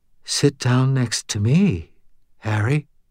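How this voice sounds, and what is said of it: Quiet, dreamy monotone. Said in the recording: “in a quiet, dreamy monotone”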